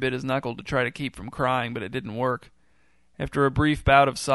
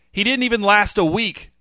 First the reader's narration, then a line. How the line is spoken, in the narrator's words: shouted Gary